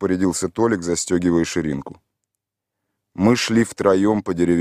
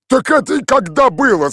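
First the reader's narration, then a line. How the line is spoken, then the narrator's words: Shouted. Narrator (Russian): закричал Михаил Иванович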